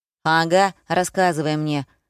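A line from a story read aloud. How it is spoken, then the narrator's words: Skeptical snort, teenager. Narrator (Russian): хмыкнул старшеклассник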